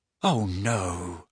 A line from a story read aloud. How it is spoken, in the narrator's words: muttered Harry